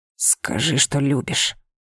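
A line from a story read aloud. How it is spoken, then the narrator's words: Hoarse whisper. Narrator (Russian): хрипло прошептал он мне на ухо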